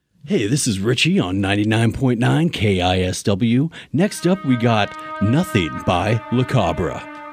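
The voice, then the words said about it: Cheesy booming morning radio DJ voice. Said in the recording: “as cheesy morning radio DJ as possible ... the booming radio voice of God”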